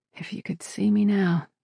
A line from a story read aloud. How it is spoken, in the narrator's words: she murmured, thinking of her parents